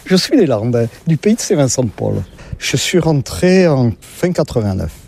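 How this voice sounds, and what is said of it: Southwestern French regional accent. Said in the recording (French): “comme vous l'entendez, je ne suis pas de la région ... Avec mon accent, je ne suis pas du nord de la Loire”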